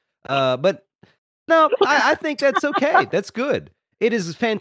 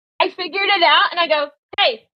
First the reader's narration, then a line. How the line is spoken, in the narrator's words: I yell